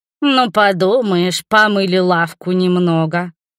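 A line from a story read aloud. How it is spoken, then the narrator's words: Grumbling. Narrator (Russian): проворчал Мурис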